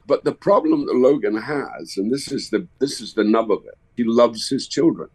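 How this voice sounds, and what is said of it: Scottish accent. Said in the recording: “It's nice to hear another Scottish accent as well.”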